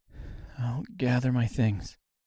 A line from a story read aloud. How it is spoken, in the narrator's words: she said quietly